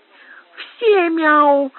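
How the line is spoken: Squeaky child's voice. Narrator (Russian): пропищал с гримасой маленький Снель

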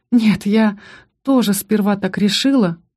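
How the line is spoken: Sighing. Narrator (Russian): вздохнула

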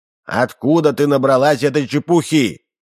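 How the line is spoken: Menacing question. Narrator (Russian): грозно спросил Удалов

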